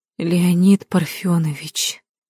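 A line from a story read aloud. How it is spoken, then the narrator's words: Tired saleswoman. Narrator (Russian): отвечала ему продавщица усталым голосом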